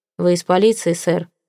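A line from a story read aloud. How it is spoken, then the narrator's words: Gloomy question. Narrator (Russian): мрачно спросил он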